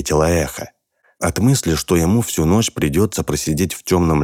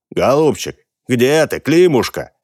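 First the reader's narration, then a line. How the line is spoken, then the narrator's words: Shouting. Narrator (Russian): Часа два кричал землемер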